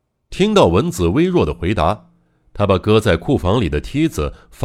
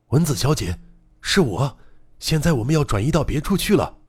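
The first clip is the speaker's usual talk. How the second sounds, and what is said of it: Quiet, hushed calling voice. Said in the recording (Chinese): “小声朝洞里喊道”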